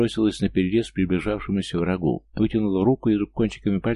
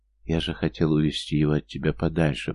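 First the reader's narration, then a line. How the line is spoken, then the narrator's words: Barely moving whisper. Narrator (Russian): прошептал он, чуть шевеля губами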